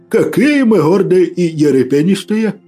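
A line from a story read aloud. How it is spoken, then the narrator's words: Booming laugh, priest. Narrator (Russian): Раскатисто хохотнул поп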